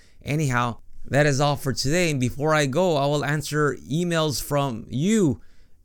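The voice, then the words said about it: Strained, failing voice. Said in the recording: “My voice is going as I'm speaking right now, and I don't want to force the throat”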